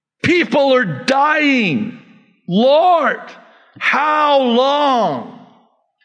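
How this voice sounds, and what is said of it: Yelling. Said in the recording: “I'm sorry if I'm yelling.”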